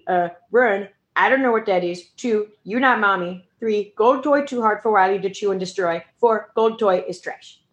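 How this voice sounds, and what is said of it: Dog character voice. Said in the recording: “That's my Wiley voice.”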